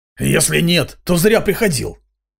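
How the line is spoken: Old man snorting again. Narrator (Russian): снова хмыкнул старик

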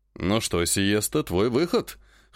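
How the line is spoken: Wry snort. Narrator (Russian): хмыкнул Жак

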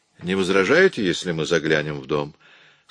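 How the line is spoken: Calm question. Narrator (Russian): спокойно спросил Уэнт

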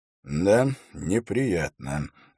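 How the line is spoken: Sigh. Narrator (Russian): вздохнул Холт

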